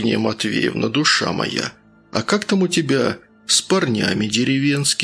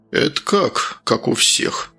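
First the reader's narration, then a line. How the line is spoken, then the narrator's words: Sorcerer's snort. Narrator (Russian): хмыкнул колдун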